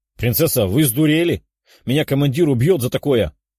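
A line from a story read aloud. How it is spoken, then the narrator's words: Exclaimed. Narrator (Russian): воскликнул волк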